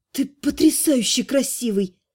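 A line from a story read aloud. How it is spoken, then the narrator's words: Breathless exhale. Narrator (Russian): выдохнула я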